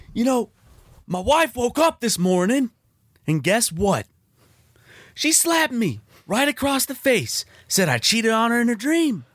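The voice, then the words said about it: Imitates another person's voice. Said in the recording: “That's my Larry the Cable Guy impression ... the accent was a little not all the way there. It's my stage man voice.”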